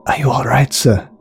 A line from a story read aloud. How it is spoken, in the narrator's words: whispered Yuri